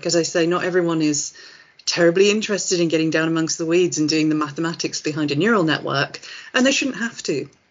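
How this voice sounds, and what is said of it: Hoarse, croaky throat. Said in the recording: “I've got a bit of a frog in my throat.”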